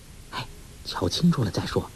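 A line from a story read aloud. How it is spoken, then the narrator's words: Low voice. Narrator (Chinese): 黄蓉拉住他手臂低声说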